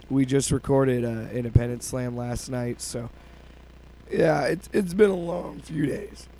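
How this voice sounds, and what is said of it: Hoarse, sick-sounding voice. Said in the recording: “As you can tell, I've been battling a cold and losing my voice. ... He's sick”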